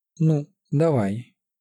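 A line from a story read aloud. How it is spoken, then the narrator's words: Strained calm. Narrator (Russian): спокойно произнесла Любава, с трудом сохраняя спокойной свою ауру, которую бешенство князя безжалостно рвало на части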